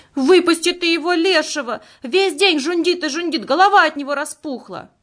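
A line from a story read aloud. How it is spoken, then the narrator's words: Woman shouting. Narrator (Russian): мать Степы Акулина кричала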